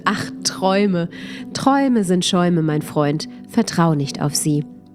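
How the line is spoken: Bright laughing. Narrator (German): lachte der Fremde hell auf und meinte

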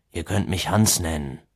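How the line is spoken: Conciliatory mutter. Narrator (German): murmelte er als eine Art versöhnlichen Abschluss dieser vielen Regeln

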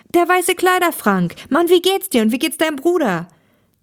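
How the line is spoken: Joyful exclamation. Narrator (German): rief Thomas erfreut aus

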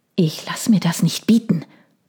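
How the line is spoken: Hissed. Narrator (German): zischte er

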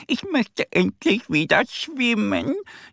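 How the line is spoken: Wailing. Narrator (German): jammert sie

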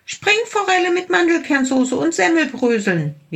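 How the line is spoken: Small creature calling out. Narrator (German): rief der kleine Tiger

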